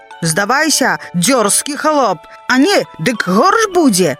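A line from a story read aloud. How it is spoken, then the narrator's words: Lord shouting. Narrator (Belarusian): пан крычыць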